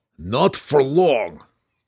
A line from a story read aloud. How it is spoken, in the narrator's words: growled Belwar